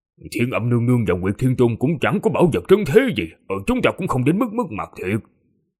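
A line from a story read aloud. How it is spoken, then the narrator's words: Muttering. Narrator (Vietnamese): Huyền Vũ không nhịn được mà lẩm bẩm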